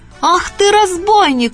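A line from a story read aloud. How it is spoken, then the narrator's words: Shouting cook. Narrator (Russian): закричала кухарка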